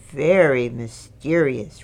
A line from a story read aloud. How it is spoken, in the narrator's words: Rabbit muttered